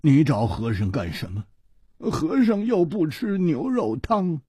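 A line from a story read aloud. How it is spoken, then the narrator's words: Monk's rueful sigh. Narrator (Chinese): 和尚叹了一口气，他苦着脸说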